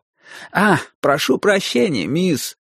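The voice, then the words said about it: Mincing, snobbish mocking imitation. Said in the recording (Russian): “передразнил мои интонации, жеманно, по-снобски”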